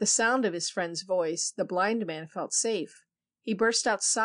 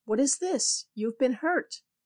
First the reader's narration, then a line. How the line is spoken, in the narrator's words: cried the startled priest